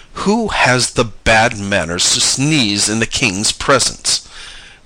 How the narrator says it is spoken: the king thundered out

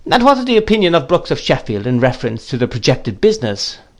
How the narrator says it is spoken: After some laughing, the gentleman whom he had called Quinion said

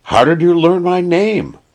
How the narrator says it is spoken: cried the man with a start

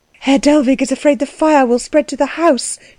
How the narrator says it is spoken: she said breathlessly

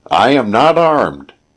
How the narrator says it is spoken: the old man shouted

